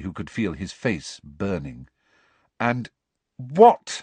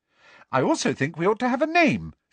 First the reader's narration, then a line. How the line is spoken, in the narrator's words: she said brightly